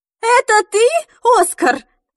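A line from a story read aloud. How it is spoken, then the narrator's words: Grandmother shouting over phone. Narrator (Russian): закричала бабуля с другого конца провода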